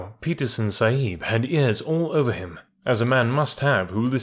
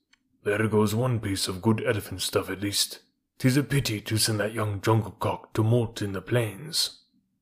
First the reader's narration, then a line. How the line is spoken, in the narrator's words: Mature Apa, the head tracker, said in an undertone to a friend of his